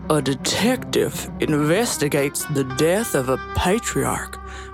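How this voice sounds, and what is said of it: Thick Southern detective drawl. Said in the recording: “in your best Daniel Craig detective accent... dripping with molasses... I thought we were back in Louisiana”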